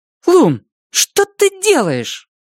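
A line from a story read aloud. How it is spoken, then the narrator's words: Irritated. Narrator (Russian): Цветика раздраженно говорит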